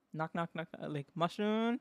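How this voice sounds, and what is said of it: Impression of a mother's voice. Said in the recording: “that was such a good impression of her.”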